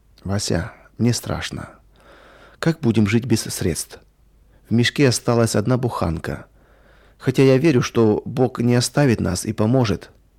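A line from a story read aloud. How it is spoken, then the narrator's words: Quiet. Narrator (Russian): негромко сказала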